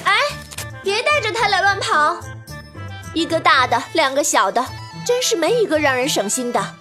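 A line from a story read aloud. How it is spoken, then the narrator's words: Exasperated loud shouting. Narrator (Chinese): 妈妈追都来不及，只能扯着嗓门喊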